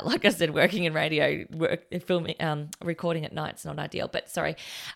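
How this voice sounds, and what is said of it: Tired, rough voice. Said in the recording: “you can tell it's late at night. My voice is not great at night.”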